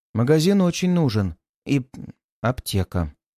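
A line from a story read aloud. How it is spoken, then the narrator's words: Plain. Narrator (Russian): сказала Юля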